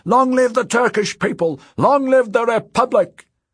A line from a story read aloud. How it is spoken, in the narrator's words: he cried